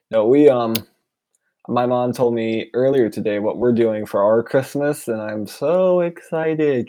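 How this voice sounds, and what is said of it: Sarcastic tone. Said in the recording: “hear the sarcasm in my voice?”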